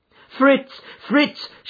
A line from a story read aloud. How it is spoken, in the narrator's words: she cried in England